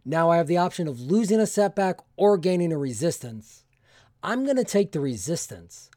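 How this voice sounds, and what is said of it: Voice sounds a bit sick. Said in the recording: “I'm just getting over something. You might have been able to tell by my voice.”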